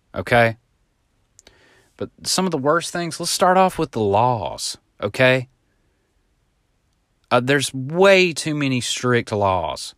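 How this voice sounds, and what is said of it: Southern US accent. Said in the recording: “I know I got an accent”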